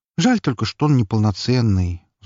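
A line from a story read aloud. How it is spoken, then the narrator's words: Sighing. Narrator (Russian): вздохнул он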